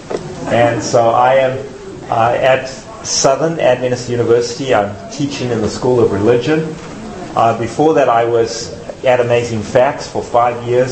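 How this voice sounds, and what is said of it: South African accent. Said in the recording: “if you've depicted an accent, it's because I'm from the South. ... South Africa.”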